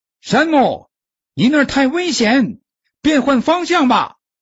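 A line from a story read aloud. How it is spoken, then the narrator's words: Shout from below. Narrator (Chinese): 脚下传来比尔的叫声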